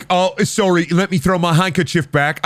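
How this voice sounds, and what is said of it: Put-on British accent. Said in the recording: “I don't like doing a British accent, I'm sorry. ... you don't have to have a British accent”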